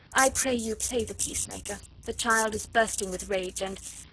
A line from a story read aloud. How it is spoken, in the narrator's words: she said in that gentle, sweet, musical voice of hers